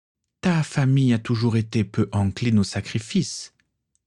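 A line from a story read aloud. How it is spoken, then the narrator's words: Plain. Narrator (French): dit Tatiana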